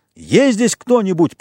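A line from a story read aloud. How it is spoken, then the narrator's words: Shouted. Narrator (Russian): прокричал он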